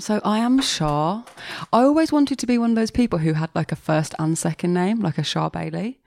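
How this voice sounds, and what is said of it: Birmingham English accent. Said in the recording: “despite the accent. I don't know if you can tell, but I am Birmingham born and braised”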